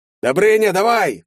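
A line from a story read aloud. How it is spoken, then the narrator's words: Yelling. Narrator (Russian): завопил Колян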